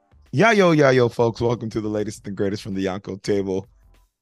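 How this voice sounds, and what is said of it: Dominic Toretto movie character impression. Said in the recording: “I was trying to do a Dominic Toretto ... That is the voice of ... trying to do a Dominic Toretto impression from the driver's seat of my Charger”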